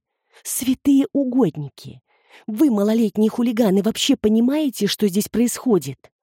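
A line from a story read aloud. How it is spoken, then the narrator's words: Hissing. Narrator (Russian): зашипела Люси на Криса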